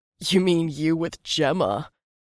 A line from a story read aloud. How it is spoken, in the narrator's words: Seb chuckled